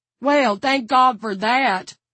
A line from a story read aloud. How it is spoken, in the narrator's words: Vern exclaimed